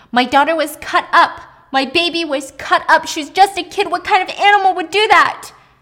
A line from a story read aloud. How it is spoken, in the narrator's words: she screamed